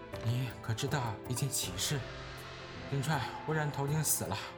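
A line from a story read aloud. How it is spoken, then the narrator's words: Sighing. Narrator (Chinese): 王夫人叹道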